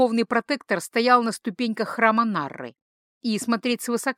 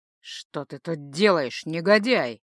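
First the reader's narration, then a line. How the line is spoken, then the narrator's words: Growl. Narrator (Russian): Прорычал, иначе и не скажешь, Рошел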